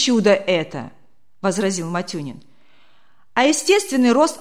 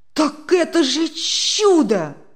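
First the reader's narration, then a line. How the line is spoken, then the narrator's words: Delighted exclamation. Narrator (Russian): не выдержав, в восторге воскликнул Демьян Лукич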